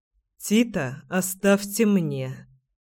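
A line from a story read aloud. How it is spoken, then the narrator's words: Gloomy request. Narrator (Russian): мрачно попросил я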